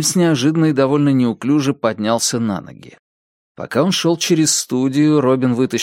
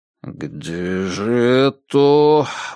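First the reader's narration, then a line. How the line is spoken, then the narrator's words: Muttering. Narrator (Russian): бормотал Нильс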